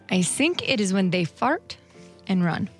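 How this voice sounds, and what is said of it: Put-on Russian accent. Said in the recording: “Russian prostitute ... keep up the accent?”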